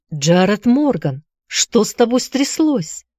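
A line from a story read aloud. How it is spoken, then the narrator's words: Frightened shout. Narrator (Russian): испуганно крикнула Констанция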